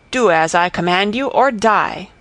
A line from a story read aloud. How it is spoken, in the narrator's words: cried the knight